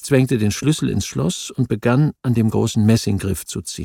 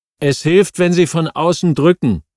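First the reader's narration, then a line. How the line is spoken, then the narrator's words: Calling again. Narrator (German): rief abermals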